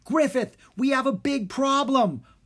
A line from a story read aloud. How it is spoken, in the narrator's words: Rory blurted out